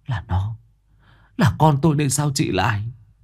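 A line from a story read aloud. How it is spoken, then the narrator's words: Trembling old woman. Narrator (Vietnamese): Bà Mơ chợt rùng mình, run run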